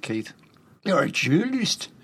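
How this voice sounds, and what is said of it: Put-on Newcastle accent. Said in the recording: “That's my Newcastle accent ... It'll do. It's not easy.”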